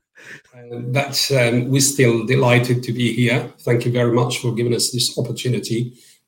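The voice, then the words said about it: Heavy accent. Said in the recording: “Kindly excuse our heavy accent and British accent.”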